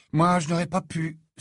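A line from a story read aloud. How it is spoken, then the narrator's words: Sighed. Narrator (French): soupira Harry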